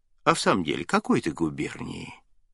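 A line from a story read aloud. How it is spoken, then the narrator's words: Gentle inquiry. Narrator (Russian): женщина ласково осведомилась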